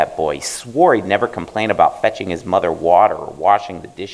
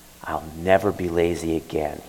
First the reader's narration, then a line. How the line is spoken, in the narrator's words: whispered